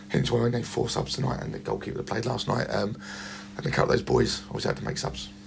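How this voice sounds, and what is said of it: Rough, unwell-sounding voice. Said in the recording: “as you can tell by my voice. We've got a problem in the camp with flu”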